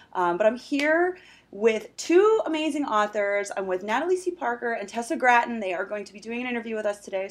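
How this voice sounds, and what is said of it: Scratchy, hoarse voice. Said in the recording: “Excuse my voice... I kind of lost my voice, so I sound a little scratchy this morning.”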